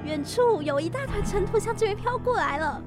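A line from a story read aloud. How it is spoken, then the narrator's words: Shouting. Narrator (Chinese): 安娜喊道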